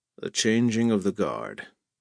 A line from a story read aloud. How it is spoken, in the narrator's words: He said in a low, mournful tone